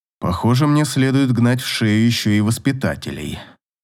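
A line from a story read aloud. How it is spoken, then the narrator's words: King muttering. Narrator (Russian): пробормотал король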